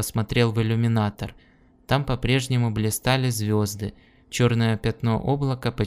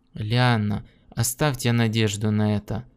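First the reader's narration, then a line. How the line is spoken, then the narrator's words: Moaning. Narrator (Russian): простонал Гордон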